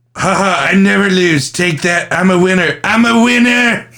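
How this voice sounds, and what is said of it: Imitates another person's voice. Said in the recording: “do your impression”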